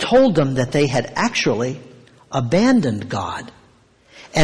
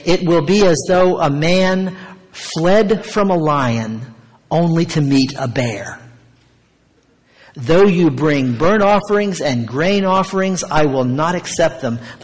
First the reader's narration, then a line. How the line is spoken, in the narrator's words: the Lord says